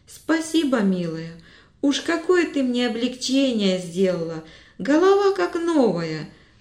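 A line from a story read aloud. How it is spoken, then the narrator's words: Joyful thanks. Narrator (Russian): радостно благодарил Митрич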